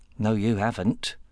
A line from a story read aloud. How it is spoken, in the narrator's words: Joe muttered